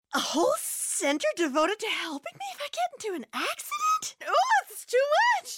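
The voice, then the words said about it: Overwhelmed, flustered character voice. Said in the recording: “my impression of an easily overwhelmed person”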